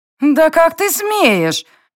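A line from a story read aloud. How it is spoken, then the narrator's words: Hysterical shriek. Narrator (Russian): истерично взвизгнула блондинка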